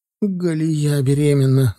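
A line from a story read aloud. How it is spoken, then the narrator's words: Sobbing. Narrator (Russian): начиная рыдать, сообщила Оксана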